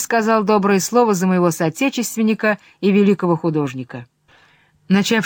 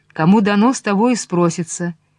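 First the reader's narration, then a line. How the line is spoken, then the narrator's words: Plain. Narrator (Russian): говорит сам Христос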